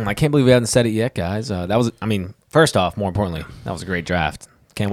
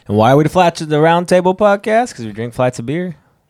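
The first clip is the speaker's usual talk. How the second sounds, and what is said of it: Southern US accent. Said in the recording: “You said flights in a real southern accent.”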